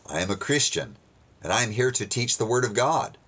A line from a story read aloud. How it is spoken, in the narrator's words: Simon answered